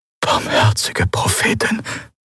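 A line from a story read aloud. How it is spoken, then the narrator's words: Whispered. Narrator (German): flüsterte Quailor neben ihm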